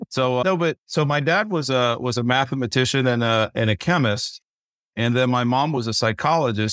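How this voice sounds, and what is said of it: Noticeable accent. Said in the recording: “That explains the accent.”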